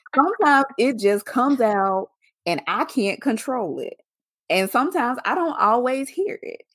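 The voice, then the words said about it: Southern US accent. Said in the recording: “I'm from the South. I'm from Mississippi. Sometimes I sound real country ... you have such a Southern accent.”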